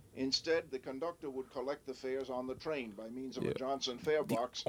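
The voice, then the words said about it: Old-fashioned rhotic regional accent. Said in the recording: “people don't sound like that anymore ... it's a rhotic accent, so he's still pronouncing most of the R's”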